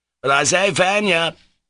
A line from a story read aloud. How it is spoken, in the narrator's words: he shouted